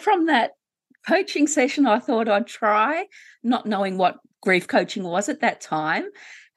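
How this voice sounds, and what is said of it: Australian accent. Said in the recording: “in case people can't tell from my accent, I'm in Australia.”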